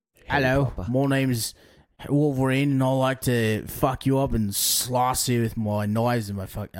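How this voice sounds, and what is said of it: Bad Australian accent on English voice. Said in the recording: “I went to an Australian accent... terribly... Terribly... You're like imitating an English man with an Australian accent... terrible.”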